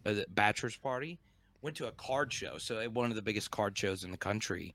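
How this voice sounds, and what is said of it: Slightly hoarse voice. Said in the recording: “my voice sounds probably a little hoarse.”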